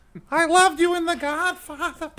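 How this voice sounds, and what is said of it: Adam Sandler baby voice impression. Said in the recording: “a really good impression of Adam Sandler being... baby voice Adam Sandler”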